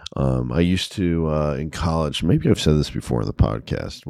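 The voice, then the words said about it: Extra deep morning voice. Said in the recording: “I have my early morning wake-up voice going ... it is kind of like a nice, extra deep voice ... when I would get a cold, which I'm kind of getting over right now, my voice would get super deep like this”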